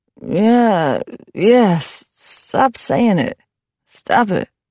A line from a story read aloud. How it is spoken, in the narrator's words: McGee groaned and then said in a mumbling voice with almost exaggerated torpidity